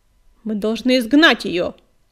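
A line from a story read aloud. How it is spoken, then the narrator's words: Stern bark. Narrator (Russian): сурово рявкнул Буран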